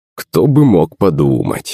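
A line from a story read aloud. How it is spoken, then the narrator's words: Short laugh. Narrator (Russian): хохотнул Иван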